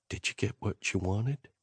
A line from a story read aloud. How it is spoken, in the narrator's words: She whispered in my ear